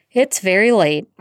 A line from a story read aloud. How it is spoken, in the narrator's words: Arthur sighed